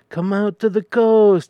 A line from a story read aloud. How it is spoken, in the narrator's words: he sighed